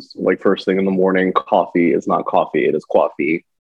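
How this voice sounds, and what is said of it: New Jersey accent. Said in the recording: “my accent will come out because I'm from Jersey ... My accent just ebbs and flows.”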